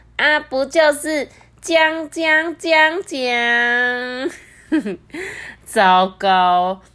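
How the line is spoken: Snorting laugh. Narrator (Chinese): 约翰马上哼的笑出来说

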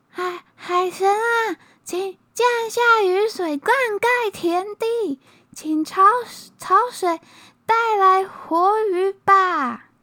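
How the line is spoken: Shouting out to sea. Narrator (Chinese): 弟弟…对着大海喊

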